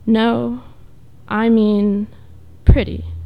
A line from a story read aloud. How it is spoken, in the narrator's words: she said slowly